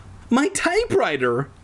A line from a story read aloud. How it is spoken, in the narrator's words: I cried